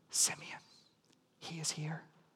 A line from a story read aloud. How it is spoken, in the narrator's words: a whisper